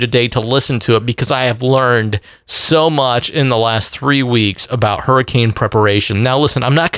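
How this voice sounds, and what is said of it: Usual voice. Nothing is said of it.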